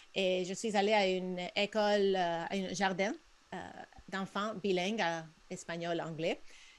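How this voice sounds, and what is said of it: Spanish-speaker's accent in French. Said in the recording (French): “comme vous entendez probablement euh, dans mon accent, je suis hispanophone”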